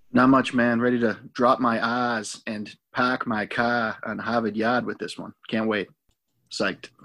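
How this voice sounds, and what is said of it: Put-on Boston accent. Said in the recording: “That's an accent I can't do, so I won't try one. ... But that was pretty impressive there. I believe you're some kind of a chowderhead.”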